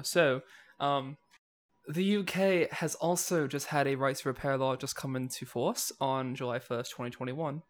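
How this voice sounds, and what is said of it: Put-on English accent. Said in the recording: “I can legally use my English accent now”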